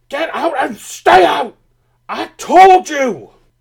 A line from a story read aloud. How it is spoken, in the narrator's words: He shouted in fury